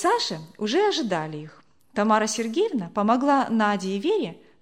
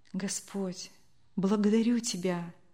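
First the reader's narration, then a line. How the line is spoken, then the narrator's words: Kind woman whispering. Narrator (Russian): прошептала добрая женщина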